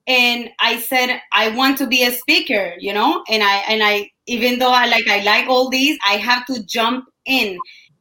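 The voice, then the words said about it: Speaks with a noticeable accent. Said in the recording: “I was shy because of my accent ... people will tell me, oh, you speak so funny ... This is my accent”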